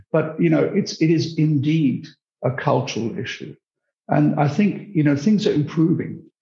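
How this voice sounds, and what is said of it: British accent. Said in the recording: “I'm British, as you can hear from my accent”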